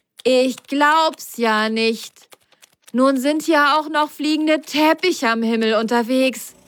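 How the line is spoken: Called out. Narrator (German): rief Ben

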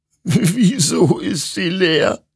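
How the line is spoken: Sobbing. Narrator (German): schluchzte Hektor

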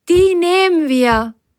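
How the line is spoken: Calling out. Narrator (German): rief Biene Firlefanz zu

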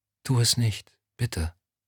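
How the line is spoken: Whispering. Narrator (German): Lorna wiederholte flüsternd

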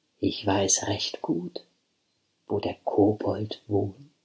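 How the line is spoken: Gentle voice. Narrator (German): sagte mit sanfter Stimme

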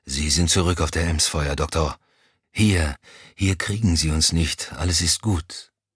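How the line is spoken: Murmur. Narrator (German): murmelte er

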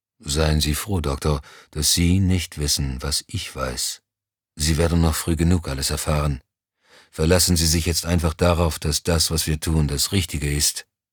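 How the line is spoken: Toneless. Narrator (German): Moussant erklärte tonlos

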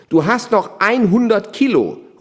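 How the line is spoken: Calling out. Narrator (German): ruft er dem einen zu

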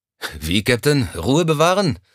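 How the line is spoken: Sighing. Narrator (German): Er seufzte

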